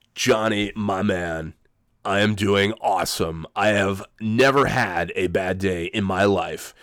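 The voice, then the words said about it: Imitates another person's voice. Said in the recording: “I'm not doing a very good Jim Rome imitation... this guy sounded like Jim Rome... the cold is not helping me do a very good imitation either”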